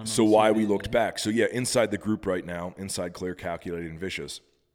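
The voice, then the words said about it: Deteriorating, worn voice from illness. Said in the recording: “I'm getting over a little something here. That's why my voice has been slowly deteriorating ... The COVID?”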